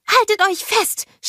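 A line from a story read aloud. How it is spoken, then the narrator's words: Screamed. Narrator (German): schrie sie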